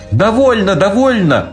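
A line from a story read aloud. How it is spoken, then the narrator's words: Terrified scream. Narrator (Russian): в ужасе закричала Женя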